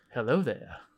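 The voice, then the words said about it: Obi-Wan Kenobi impression. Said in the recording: “Obi-Wan Kenobi ... That was my best impression.”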